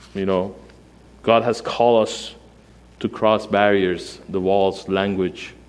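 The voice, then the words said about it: Non-native English accent. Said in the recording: “I know it's hard to hear my accent. Maybe you don't understand some of my words”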